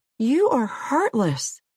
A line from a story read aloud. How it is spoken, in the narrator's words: Jane stopped howling to say